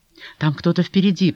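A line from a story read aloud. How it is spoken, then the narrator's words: Alarmed whisper. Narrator (Russian): прошептала она, потому что услышала вдруг, или ей показалось, бряцание уздечек, лошадиное ржание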